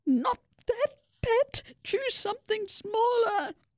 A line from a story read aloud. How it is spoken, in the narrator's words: Mabel's mum squeaked